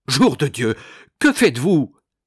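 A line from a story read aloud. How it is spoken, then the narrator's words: Mayor exclaiming. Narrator (French): s'écria le maire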